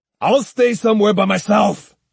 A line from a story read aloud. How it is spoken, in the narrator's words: he bellowed